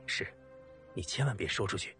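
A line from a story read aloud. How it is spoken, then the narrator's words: Quiet, reluctant voice. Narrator (Chinese): 方南怕他在街上纠缠，只好小声的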